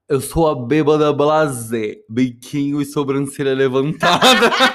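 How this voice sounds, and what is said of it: Imitates another person's accent. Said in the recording (Portuguese): “Eu vou falar até com sotaque, ela, como ela falaria.”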